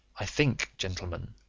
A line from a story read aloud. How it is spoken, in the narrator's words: said Holmes quietly